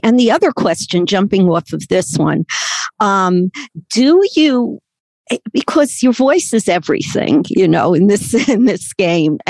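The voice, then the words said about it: Brooklyn accent. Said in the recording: “I have been told that I have a Brooklyn accent. ... they say, well, we knew that, we could tell.”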